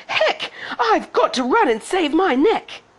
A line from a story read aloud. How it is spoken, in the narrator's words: She shouted